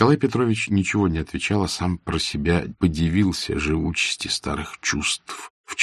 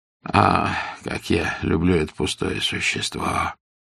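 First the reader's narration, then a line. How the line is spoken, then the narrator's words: Moaning. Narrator (Russian): простонал Павел Петрович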